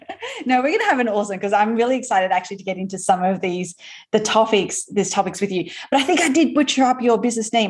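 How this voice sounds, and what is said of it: Australian accent. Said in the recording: “my Aussie accent, I think, is definitely butchering the pronunciation of that”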